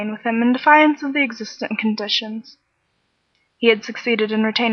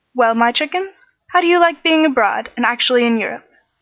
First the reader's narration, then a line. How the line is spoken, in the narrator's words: inquired Uncle John cheerfully